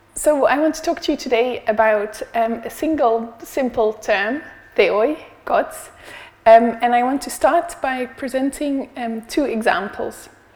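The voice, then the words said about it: Strained, struggling voice. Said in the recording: “apologize for my voice... Hopefully my voice will last during this presentation... if it turns into a bit of a struggle”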